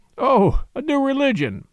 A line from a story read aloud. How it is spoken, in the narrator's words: said Flambeau, laughing